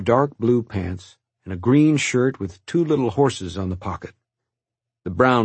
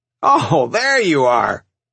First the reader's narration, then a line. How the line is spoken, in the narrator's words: he boomed out with laughter